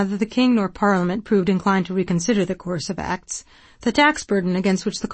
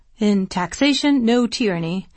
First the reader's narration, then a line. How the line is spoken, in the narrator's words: Johnson asked dryly